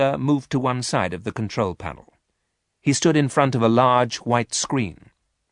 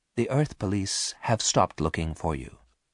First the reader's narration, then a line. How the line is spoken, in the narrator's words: said quietly